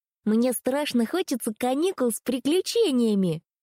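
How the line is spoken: Excited yell. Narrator (Russian): завопила Мира за ужином

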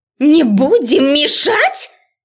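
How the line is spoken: Furious bark over noise. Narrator (Russian): Перекрикивая этот гам, гаркнула разозленная до предела профессор Грэдис

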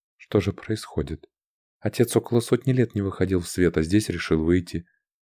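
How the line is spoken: Barely audible whisper. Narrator (Russian): принцесса рядом со мной еле слышно прошептала

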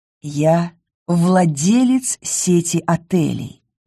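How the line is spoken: Creepily sweet voice. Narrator (Russian): пугающе сладким голосом произнес Матео

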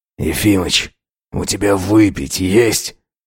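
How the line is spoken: Hoarse rasp. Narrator (Russian): прохрипел Антипов

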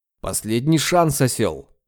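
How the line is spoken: Growling. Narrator (Russian): рыкнул я

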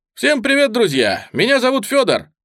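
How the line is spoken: Nervous, overly upbeat. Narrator (Russian): От волнения каждое слово вылетало из меня четко и бодро, даже слишком, будто я толкал мотивационную речь

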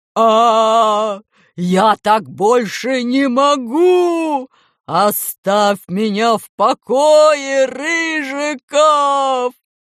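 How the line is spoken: Teacher screaming wildly. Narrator (Russian): закричал диким голосом учитель

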